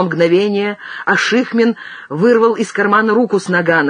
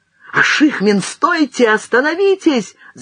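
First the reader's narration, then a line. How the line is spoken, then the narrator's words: Shouted. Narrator (Russian): закричал Азимов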